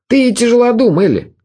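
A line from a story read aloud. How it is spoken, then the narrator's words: Angry. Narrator (Russian): говорил он сердито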